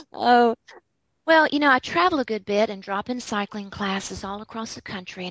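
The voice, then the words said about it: Slight Southern US accent. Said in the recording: “we can hear that in your voice. ... It's a little southern.”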